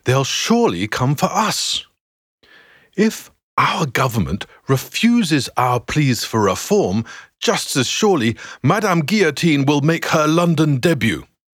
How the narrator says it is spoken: continues James, his voice now rising

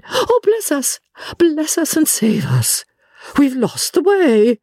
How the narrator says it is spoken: she broke off and exclaimed

